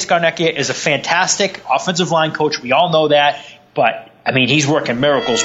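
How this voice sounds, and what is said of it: Thick regional accent. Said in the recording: “how thick my accent was.”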